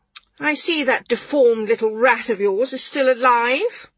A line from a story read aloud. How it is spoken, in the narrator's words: she exclaimed